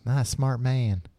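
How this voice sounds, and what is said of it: George W. Bush impression. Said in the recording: “That's my GW impression.”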